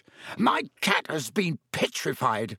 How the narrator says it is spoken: he shrieked, his eyes popping

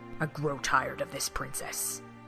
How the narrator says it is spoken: Ganondorf said coldly

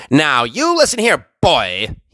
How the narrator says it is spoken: he snarled

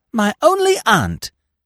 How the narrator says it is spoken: She exclaimed

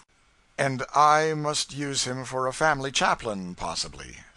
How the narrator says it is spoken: added the young man dryly

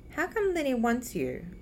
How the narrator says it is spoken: she asks

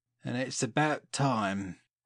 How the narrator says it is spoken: growled Jack

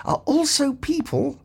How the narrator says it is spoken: said Ford Prefect quietly

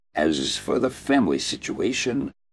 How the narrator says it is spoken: the Viper sighed

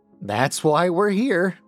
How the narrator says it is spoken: Valerie said, laughing

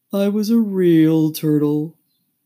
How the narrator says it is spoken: said the Mock Turtle at last with a deep sigh

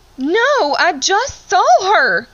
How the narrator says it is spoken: yelled, irritated that they didn't understand what I meant

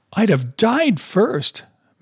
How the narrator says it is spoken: Madge cried

